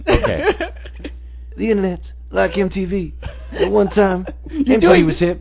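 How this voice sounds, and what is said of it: Imitates another person's voice. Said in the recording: “Now you got to try the accent. ... That's Bruce Springsteen. ... I never claimed to be able to do a Prince impersonation.”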